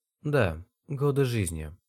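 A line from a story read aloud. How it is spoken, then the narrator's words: Serious. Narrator (Russian): подтвердил он серьезным тоном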